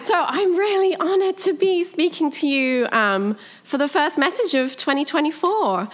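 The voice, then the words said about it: British accent. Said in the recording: “I'm British. ... what my accent is. It's British. It's not Australian.”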